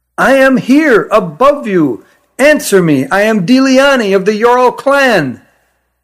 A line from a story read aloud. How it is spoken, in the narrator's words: shouted as loudly as she could